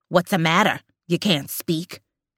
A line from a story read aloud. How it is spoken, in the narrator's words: snarls